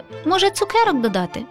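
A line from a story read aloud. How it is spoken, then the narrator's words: Laughing. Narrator (Ukrainian): засміялася Шумка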